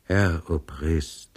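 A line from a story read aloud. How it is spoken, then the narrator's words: Very quiet reply. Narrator (German): erwiderte der Pristav sehr leise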